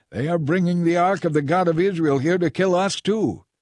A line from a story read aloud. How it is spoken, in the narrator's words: the people of Ekron saw it coming, they cried out